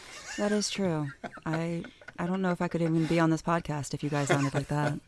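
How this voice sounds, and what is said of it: Polished radio-style voice. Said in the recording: “you do have like a radio voice.”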